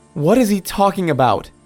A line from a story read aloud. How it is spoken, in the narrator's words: Mary Beth exclaimed